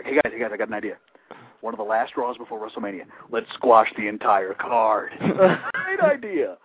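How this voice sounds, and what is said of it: Imitates another person's voice. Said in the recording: “Was that a pretty decent Vince impersonation? ... Sound like you had to poo.”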